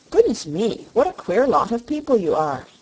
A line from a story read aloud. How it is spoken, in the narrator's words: exclaimed the rubber bear